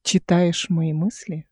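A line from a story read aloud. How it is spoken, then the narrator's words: Plain. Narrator (Russian): спросила Эл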